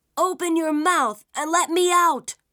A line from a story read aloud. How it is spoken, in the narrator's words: shouted Isun Boshi from inside the demon's stomach